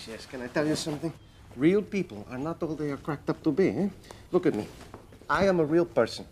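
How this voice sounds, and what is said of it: Odd accent of unclear origin. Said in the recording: “the butler accent ... Oh, gosh, the accent ... Where is that accent from? ... Are you French? Are you English? ... Mexican? ... It's so weird.”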